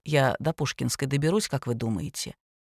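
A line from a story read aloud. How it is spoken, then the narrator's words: Quiet question. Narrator (Russian): спросил тихо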